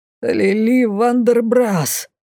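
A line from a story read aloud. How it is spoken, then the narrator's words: Exhausted hoarse rasp. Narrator (Russian): Из последних сил прохрипела Лей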